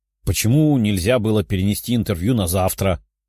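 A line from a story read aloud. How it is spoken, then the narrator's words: Grumbling. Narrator (Russian): ворчала Лиза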